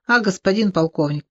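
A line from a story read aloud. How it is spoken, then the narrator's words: Grumbled. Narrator (Russian): проворчал Бугемот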